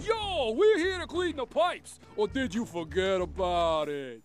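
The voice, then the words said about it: Bad put-on New York accent. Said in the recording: “don't do your bad New York accent ... That accent actually got me fired from Law & Order”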